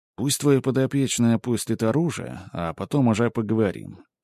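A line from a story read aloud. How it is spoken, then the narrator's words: Forced calm, even voice. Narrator (Russian): спокойным, ровным голосом сказал, хотя на самом деле спокоен вовсе не был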